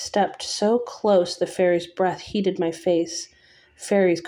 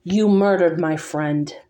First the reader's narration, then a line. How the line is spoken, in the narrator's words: the beast snarled